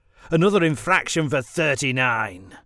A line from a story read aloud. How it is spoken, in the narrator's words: he sneered